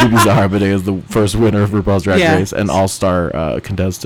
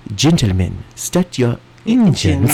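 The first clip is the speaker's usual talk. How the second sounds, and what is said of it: Strong Cameroonian accent, Bibi Zaharbanay impression. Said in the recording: “Her accent is still so strong ... she's from Cameroon”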